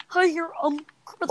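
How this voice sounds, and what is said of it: Imitates Kermit the Frog voice. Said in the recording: “Why do you actually do a good impression of that? ... you did like a baller impression of Kermit.”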